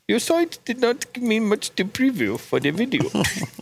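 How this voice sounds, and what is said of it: Put-on Indian accent. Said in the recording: “Can you read it as with an Indian accent?”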